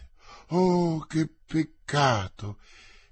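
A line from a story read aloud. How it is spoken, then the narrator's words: Exclaimed. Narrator (Italian): esclamò Madame de Chevreuse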